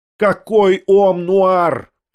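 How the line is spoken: Shouted. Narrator (Russian): прокричала Татьяна Павловна

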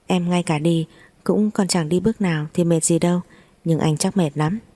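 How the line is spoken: Laughing. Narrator (Vietnamese): Chu Thiến bật cười

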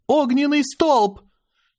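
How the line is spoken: Shouted out. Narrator (Russian): Аня выкрикнула

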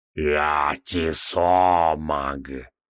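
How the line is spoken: Monster's deep bass. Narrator (Russian): пробасило чудовище

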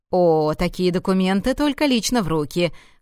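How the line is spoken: Man chuckling. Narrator (Russian): хохотнул мужчина

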